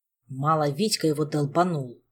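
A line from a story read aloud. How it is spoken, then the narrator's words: Grumbling. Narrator (Russian): проворчал кузен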